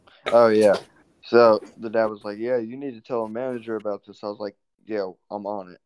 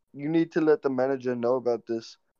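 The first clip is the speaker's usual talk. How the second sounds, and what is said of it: Put-on Indian accent. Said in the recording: “that guy sounded Indian. I'm changing up accents ... Something Indian accent.”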